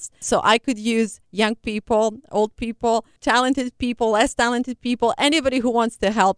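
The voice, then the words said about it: Noticeable non-native English accent. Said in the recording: “you can tell my accent and my grammar is not the best.”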